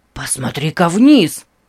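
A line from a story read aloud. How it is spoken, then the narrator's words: Excited. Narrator (Russian): взволнованно сказал Нейт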